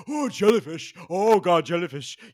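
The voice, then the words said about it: Imitates another person's voice. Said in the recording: “that's my impression of Diana Nyad”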